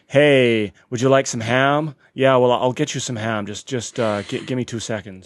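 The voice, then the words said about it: Put-on American accent, not convincing. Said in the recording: “I was dared to do the entire shift in an American accent ... Clearly you're not good at doing accents”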